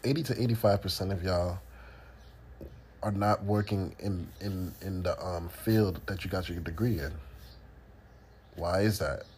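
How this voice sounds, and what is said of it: Congested voice from a cold. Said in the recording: “Sorry, I have a cold.”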